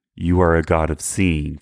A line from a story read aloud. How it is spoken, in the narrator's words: for she said